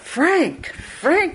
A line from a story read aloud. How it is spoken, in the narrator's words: she cried in a voice that made the whole wood ring